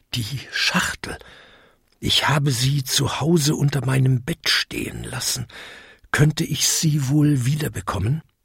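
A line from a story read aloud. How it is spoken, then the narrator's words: Whispered in ear. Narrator (German): Der Engel flüsterte ihm ins Ohr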